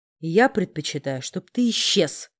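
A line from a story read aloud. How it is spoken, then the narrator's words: Growl. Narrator (Russian): рыкнул я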